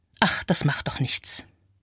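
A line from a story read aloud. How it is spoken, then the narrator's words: Murmured. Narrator (German): Mich selbst höre ich murmeln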